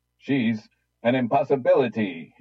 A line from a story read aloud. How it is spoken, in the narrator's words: he cried